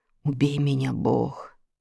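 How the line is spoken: Stunned whisper. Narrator (Russian): прошептал пораженный Джон Смит

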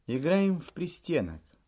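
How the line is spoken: Calm reply. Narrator (Russian): спокойно ответила Лидия Михайловна

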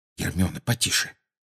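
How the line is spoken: Muttering. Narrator (Russian): пробормотал Гарри, стараясь не отстать

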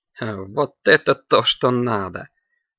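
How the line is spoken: Laughing. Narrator (Russian): рассмеялась Наина

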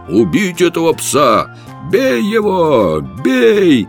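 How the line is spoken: Many voices shouting. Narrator (Russian): 10 голосов закричало

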